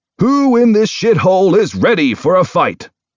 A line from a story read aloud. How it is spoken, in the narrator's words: booms, his words chased by cheers and pounding feet and sloshing beer